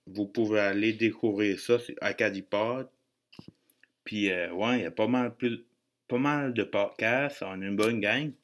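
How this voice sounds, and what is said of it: Acadian French accent. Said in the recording (French): “vous raffolez mon accent ou whatever, ben moi je dis j'ai pas d'accent”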